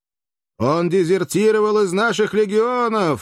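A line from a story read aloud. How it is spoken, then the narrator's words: Thunderous shout. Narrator (Russian): закричал кто-то громовым голосом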